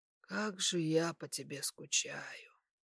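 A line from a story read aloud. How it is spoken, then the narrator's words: Whisper. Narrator (Russian): прошептал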